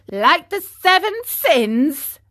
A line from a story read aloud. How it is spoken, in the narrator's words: said Pinocchio, still laughing